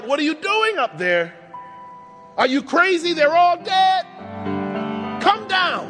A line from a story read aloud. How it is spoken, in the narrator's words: The parents yell out